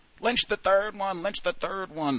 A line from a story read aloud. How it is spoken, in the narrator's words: the crowd, which chanted mockingly